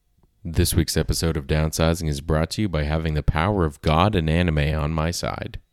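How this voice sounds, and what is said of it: Sick voice with sore throat. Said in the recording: “I don't know if you can tell from the way that my voice sounds right now, but I'm sick ... I have a sore throat a little bit ... I've got a cough”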